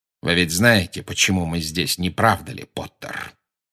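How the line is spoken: Quiet menacing voice. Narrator (Russian): сказал Снегг тихим угрожающим голосом

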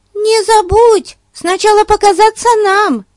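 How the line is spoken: Shout. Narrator (Russian): крикнула Бетси

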